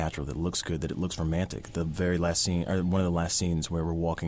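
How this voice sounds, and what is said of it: Usual voice. Nothing is said of it.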